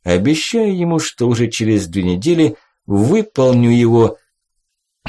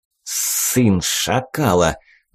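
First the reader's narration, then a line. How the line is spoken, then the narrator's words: Angry speech. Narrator (Russian): злобно сказал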